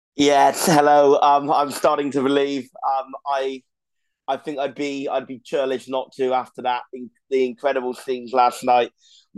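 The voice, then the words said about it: Slightly hoarse, worn-out voice. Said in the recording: “My voice is still a little bit hoarse ... my voice is a little bit worn out”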